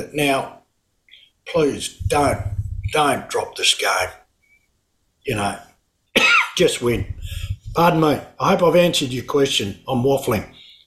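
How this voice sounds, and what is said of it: Hoarse, strained voice. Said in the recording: “I'm going hoarse, so I must have talked a bit.”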